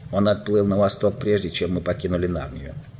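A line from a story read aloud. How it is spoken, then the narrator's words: Plain. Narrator (Russian): ответил Грюм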